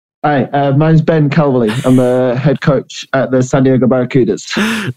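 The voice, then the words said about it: British accent. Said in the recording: “you don't sound American ... I heard a British accent”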